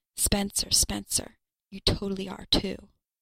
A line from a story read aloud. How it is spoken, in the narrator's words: He whispers